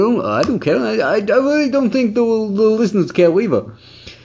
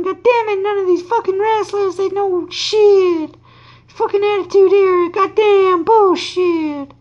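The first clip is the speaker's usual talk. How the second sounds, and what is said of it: Imitates another person's voice. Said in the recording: “my fucking impression is just Bruce Pritchard's impression of Jim Cornette and me doing an impression of Bruce doing an impression”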